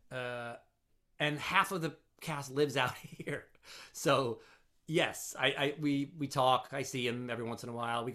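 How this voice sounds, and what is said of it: New Jersey accent. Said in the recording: “I live out in New Jersey, about 25 minutes into Jersey. And you can probably tell from my accent.”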